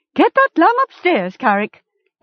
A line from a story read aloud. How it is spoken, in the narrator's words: Essie cried